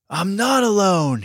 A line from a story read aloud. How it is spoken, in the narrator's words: he yelled